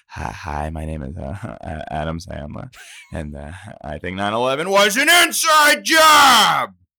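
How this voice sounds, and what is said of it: Imitates another person's voice. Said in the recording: “Adam Sandler is my, that's the one everyone loves... I do an impression of like what I think it is”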